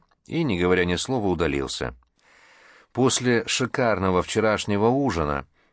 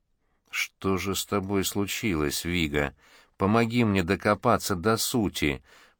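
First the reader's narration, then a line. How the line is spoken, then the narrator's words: Muttered. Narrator (Russian): пробормотал Джим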